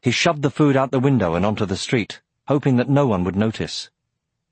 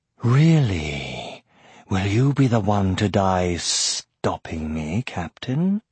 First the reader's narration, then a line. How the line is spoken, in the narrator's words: cut in a smooth voice